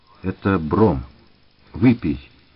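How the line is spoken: Insistent and stern. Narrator (Russian): настойчиво, строго сказал Сташинский

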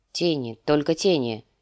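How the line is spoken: Grumbled. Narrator (Russian): буркнул сир Джорах

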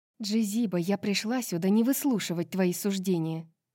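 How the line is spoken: Hiss. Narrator (Russian): прошипела Гипаксия

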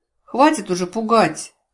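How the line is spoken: Gloomy snapping. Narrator (Russian): мрачно огрызнулась я

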